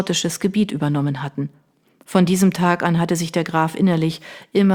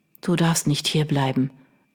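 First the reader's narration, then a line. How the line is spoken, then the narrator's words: Weak, feeble voice. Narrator (German): erwiderte er mit kraftloser Stimme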